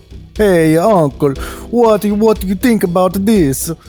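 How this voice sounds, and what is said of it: Put-on Italian accent. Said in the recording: “your Italian accent”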